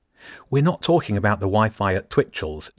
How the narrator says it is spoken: Jenny said

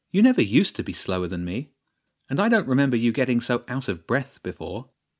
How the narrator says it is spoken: Jenny said playfully

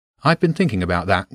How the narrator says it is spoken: James said

